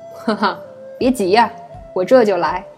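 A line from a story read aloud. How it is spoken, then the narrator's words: Light laugh. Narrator (Chinese): 九姨轻笑出声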